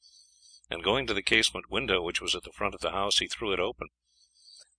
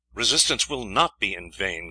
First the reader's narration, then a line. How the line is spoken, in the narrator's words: Guy said firmly